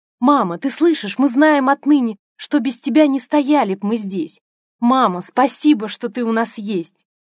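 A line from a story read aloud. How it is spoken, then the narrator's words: Children shouting from afar. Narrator (Russian): Дети кричали ей с самой вершины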